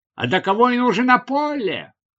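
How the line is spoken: Exclaiming. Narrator (Russian): воскликнул он

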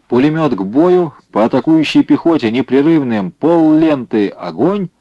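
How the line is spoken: Shouted command. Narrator (Russian): закричал он за командира

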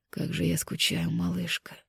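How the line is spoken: Delirious passionate mumbling. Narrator (Russian): В беспамятстве бормотал Ян

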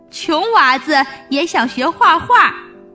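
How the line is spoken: Mocking laughter. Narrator (Chinese): 大官和画师听了哈哈大笑，说

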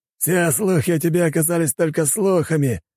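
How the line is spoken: Laughing. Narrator (Russian): рассмеялся он

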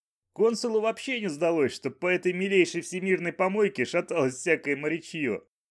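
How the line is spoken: Blissful chuckle. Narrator (Russian): блаженно хохотнул Банджо

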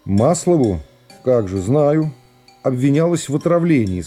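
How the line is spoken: Calm statement. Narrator (Russian): сказал прокурор спокойно

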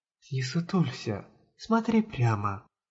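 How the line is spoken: Persistent whisper. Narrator (Russian): продолжала нашептывать Юкино Сита

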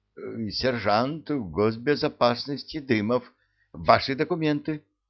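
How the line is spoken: Hesitant stammering. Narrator (Russian): видимо, сомневаясь, запинаясь, произнес

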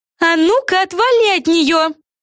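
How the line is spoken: Yelled. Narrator (Russian): Заорала Яна Романель Фелисити

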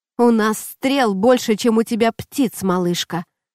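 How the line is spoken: Sailor's grumble. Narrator (Russian): проворчал моряк

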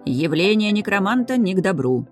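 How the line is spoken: Grumbled. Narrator (Russian): проворчал Бассет при виде знакомого ученого

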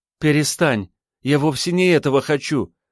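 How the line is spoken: Exclamation. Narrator (Russian): воскликнула

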